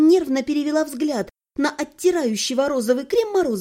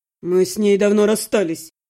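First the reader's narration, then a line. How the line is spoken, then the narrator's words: Gloomy. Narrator (Russian): мрачно ответил Иван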